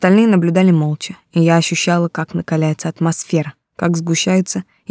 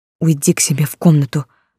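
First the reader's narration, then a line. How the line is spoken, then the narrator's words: Hissed. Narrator (Russian): прошипел Марко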